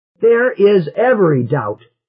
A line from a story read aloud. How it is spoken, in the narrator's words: he shouted